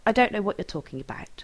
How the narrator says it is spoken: he says stiffly

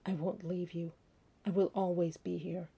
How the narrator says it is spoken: his hoarse whisper

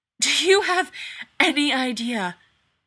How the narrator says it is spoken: wheezes, obviously in pain

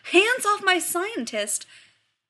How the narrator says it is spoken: John's about to yell

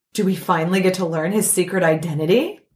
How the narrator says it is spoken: Flash gasped

